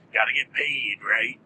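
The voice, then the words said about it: Imitates another person's voice. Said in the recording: “that's not a bad Wolfman Jack impression.”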